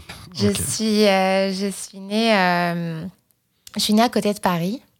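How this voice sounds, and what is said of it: French accent from France. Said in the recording (French): “En écoutant ton accent, on suppose que tu viens d'ailleurs.”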